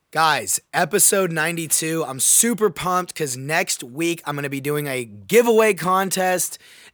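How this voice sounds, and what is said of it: Hoarse, raspy voice. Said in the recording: “my voice, kind of lost my voice a little bit... please excuse the raspiness”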